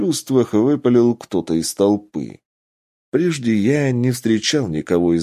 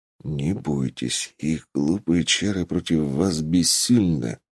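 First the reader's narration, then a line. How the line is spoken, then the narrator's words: Whisper. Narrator (Russian): шепнул я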